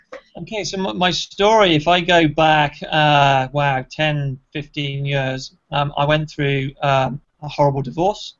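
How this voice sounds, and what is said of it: British accent. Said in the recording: “coming to us all the way from the UK. Which is where that lovely accent is from.”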